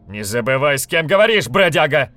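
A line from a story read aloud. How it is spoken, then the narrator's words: Furious shout. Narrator (Russian): Яростно крикнул Острид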